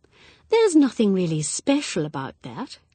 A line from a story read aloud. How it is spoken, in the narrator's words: she added in her gentle voice